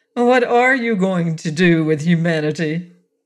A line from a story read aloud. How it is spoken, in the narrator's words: Bell laughed, the sound full of murmurous metallic overtones